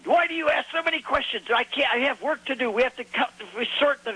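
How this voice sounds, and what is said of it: Thick put-on Hebrew accent. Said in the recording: “in very thick Hebrew accent. I could hardly understand them.”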